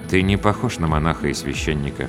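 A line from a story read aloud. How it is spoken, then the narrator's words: Quiet. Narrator (Russian): негромко сказал он мне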